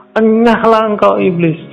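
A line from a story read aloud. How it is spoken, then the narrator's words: Shouting. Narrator (Indonesian): langsung teriak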